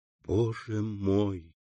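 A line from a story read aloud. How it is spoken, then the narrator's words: Whispered. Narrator (Russian): прошептала Валентина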